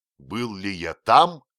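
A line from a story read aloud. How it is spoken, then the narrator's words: Exclaiming. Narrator (Russian): воскликнул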